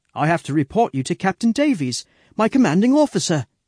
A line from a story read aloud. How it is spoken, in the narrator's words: he says